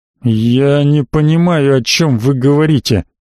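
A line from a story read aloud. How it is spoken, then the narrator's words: Angry hiss. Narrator (Russian): зло прошипел мгновенно изменившийся в лице барон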